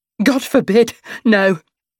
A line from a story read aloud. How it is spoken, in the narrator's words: she laughs